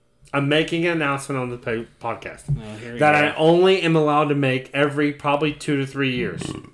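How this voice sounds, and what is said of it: Excited, pumped-up voice. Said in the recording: “can you hear it in my voice? I'm getting fucking excited. I am pumped.”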